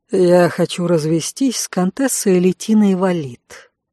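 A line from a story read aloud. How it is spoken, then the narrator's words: Calm male voice. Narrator (Russian): спокойно сообщил мужчина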